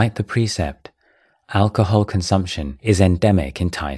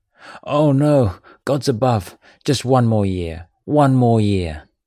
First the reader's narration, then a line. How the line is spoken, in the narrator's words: the man moaned